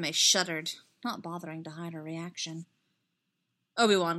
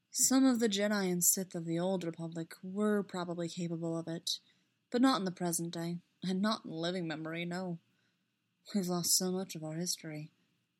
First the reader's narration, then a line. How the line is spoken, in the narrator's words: he added, a little sadly